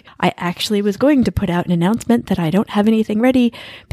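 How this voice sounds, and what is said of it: Congested, stuffy head-cold voice. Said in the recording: “You can probably tell from my voice if you've listened before that I have a super obnoxious head cold right now.”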